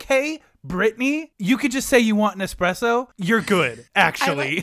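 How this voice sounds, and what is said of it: Usual voice. Nothing is said of it.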